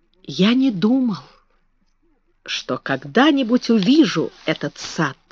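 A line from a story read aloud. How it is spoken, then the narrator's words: Whispering. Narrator (Russian): сказал он, наконец, шепотом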